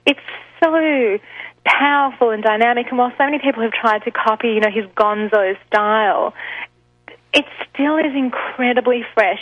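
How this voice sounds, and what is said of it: Australian accent. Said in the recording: “obviously from my accent, people can tell that I'm originally from Australia”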